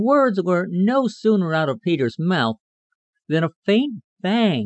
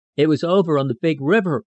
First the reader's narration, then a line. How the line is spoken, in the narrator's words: said Mrs